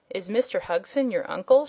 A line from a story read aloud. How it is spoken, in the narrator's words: she asked